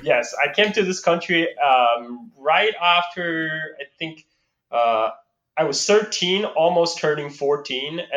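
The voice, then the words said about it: Slight foreign accent in English. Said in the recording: “I'm just barely past that mark. That's why you can still hear a little bit of accent when I talk.”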